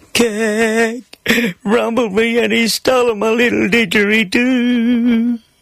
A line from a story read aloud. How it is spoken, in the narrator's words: Between my sobs, I managed to weep